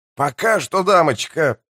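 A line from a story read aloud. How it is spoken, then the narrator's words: Grumble. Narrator (Russian): проворчал Спрут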